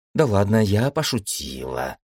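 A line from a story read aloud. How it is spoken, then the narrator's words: Girl muttering. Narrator (Russian): пробормотала девочка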